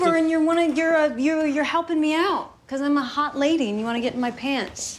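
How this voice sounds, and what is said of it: Usual voice. Nothing is said of it.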